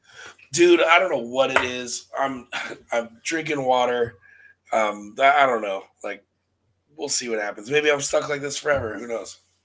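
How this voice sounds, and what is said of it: Raspy, hoarse smoker-like voice. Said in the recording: “nasty raspy stuff. Throat ... the sexy smoker's voice ... I sound like an old white woman from Long Island who just smokes Virginia Slims”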